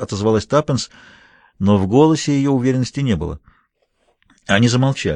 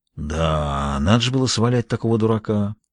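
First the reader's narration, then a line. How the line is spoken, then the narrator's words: Self-critical mutter. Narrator (Russian): пробормотал Джулиус с редкой для него самокритичностью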